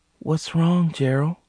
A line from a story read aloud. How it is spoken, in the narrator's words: She asked gently